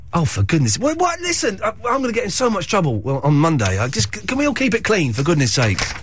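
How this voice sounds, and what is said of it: Hoarse, croaky throat. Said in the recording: “I've got a frog in my throat... What's going on with my throat? Let's take a phone call while I have a little cough.”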